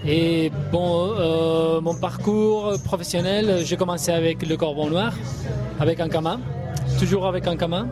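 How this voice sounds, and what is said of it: Spanish accent speaking French. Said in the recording (French): “à ton accent, on devine que tu viens de l'autre côté des Pyrénées”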